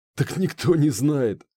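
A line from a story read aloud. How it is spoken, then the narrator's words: Chuckling. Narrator (Russian): хохотнул Пахом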